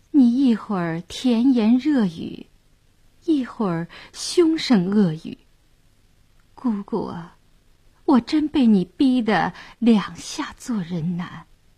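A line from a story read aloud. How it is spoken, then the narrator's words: Dazed, soft sigh. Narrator (Chinese): 谭健儿倒愣了，轻叹一声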